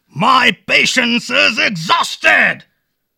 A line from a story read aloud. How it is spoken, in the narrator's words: the sultan cried